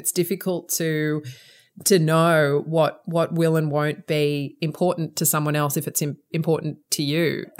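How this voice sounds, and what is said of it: Australian accent. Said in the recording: “you probably can tell from my accent, I'm Australian”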